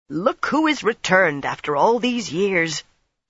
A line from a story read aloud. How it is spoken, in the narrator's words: a short, stout woman in her middle years blurted